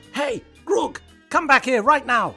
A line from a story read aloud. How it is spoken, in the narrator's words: Trevor shouted at the top of his voice